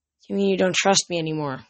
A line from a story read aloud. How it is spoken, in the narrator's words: he said miserably